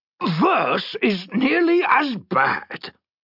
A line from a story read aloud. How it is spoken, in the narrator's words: growled Brangar